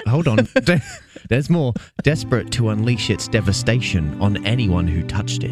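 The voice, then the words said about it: Seductive put-on English accent, sounds Australian. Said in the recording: “In your most English sexy voice ... That sounded more Australian to me ... like seductive, like that English was... sounds more Australian ... when he gets seductive, he sounds like an Australian”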